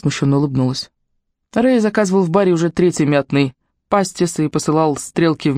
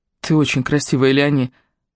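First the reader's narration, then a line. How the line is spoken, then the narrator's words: Whisper. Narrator (Russian): Мсье Лансени прошептал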